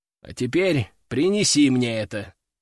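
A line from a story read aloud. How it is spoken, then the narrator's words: Calm. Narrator (Russian): спокойно сказал я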